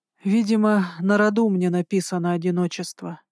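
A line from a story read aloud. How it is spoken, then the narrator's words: Tired. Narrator (Russian): сказал он устало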